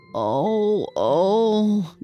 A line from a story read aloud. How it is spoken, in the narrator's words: groaned the old woman